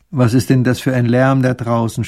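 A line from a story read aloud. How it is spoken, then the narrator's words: Groaning. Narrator (German): stöhnt der kleine Großherzog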